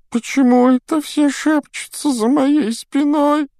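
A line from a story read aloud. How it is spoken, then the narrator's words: Whining. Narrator (Russian): захныкала Миртл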